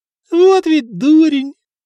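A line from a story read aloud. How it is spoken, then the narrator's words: Sobbing with laughter. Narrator (Russian): Туго даже всхлипывать начал от смеха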